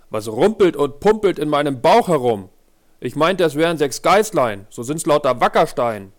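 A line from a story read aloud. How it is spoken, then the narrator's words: Called out. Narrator (German): rief er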